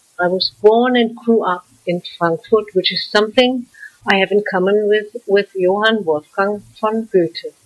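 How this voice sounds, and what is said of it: German accent. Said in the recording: “I'm German, and I think I can't deny it because of my German accent.”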